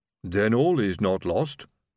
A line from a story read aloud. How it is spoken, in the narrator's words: rumbled Silver